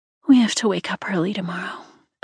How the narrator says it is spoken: Olivia sighed

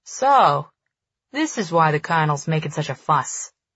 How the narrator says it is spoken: he chuckles

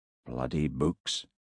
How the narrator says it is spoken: he murmured, as he shivered in the cold

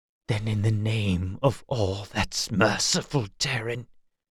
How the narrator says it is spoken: he whispered

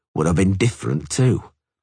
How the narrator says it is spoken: he said icily

